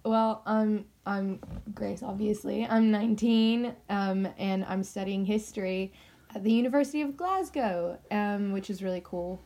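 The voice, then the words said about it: American accent. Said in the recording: “you you've got an American accent.”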